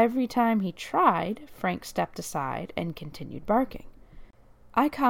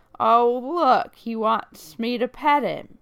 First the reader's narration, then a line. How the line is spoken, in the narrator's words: The man, who positively reeked of alcohol, slurred